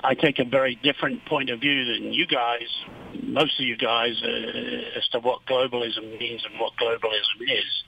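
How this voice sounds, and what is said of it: Non-local accent. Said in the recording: “I can tell by my accent I'm an outsider”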